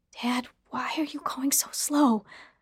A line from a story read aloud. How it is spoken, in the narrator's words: I whispered